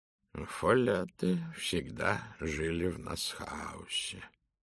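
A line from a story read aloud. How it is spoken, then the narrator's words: Muttering under breath. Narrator (Russian): пробормотал себе под нос Пуаро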